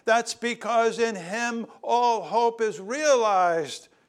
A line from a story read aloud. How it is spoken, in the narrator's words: Peter shouted with pure joy